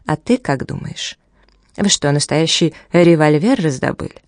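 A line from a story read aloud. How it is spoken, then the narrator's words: Composed retorting question. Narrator (Russian): Шон быстро взял себя в руки и ответил вопросом на вопрос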